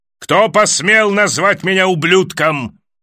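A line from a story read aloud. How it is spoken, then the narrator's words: Roaring. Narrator (Russian): взревел Крастер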